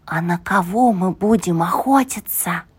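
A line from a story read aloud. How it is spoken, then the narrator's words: Cautious near-whisper. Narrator (Russian): осторожно, почти шепотом спросил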